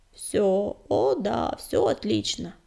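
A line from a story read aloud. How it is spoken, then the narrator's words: Hoarse tense mumble. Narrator (Russian): севшим голосом бормотал Огнегриф, коченея от напряжения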